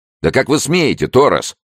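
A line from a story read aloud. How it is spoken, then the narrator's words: Yelled. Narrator (Russian): завопил он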